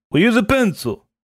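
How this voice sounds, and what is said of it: Weak attempt at Russian accent. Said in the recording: “That's not a Russian accent. It's best I could do. ... Italian, Greek, Russian? ... Northern Italian, perhaps.”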